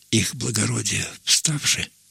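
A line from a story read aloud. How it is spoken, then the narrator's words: Whisper. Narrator (Russian): прошептал он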